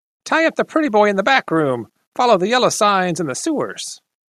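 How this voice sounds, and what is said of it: Thin nasally character voice. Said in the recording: “In a thin nasally voice”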